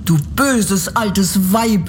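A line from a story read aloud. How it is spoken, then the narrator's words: Furious shout. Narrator (German): rief das Mädchen und wurde so zornig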